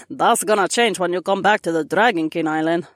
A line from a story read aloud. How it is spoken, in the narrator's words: Mira chuckled